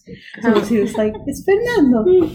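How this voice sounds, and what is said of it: Cute baby voice. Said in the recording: “he's a kitten. So he'd have like a baby voice.”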